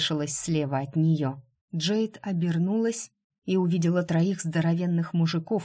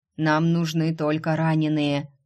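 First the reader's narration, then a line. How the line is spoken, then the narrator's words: Barked shout. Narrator (Russian): рявкнул тот, что был ниже всех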